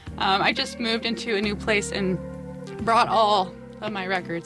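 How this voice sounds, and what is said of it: Breathless, out of breath speech. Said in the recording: “Oh my god, I'm out of breath.”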